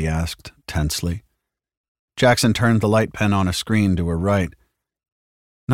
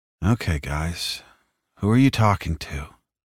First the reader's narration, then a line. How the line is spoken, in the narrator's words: murmured